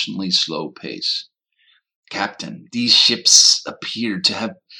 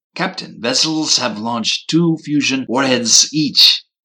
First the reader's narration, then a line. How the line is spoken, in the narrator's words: exclaimed Chekirk